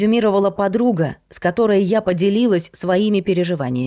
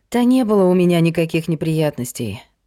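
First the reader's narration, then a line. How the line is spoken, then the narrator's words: Sighing. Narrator (Russian): вздохнула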